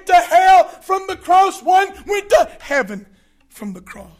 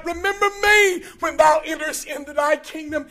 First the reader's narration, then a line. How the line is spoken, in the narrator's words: He cries out